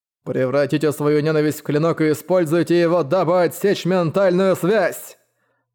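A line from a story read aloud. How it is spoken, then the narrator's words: Thunderous booming voice. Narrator (Russian): Голос Сюаньфана прогремел, словно раскат грома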